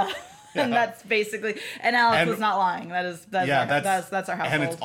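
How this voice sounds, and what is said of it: Usual voice. Nothing is said of it.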